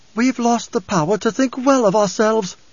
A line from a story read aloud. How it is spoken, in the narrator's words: She'd lost her famous Bene Gesserit poise and screamed